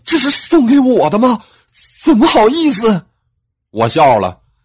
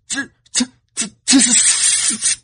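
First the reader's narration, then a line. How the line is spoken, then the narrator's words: Stunned stammering. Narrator (Chinese): 他一愣，结结巴巴的说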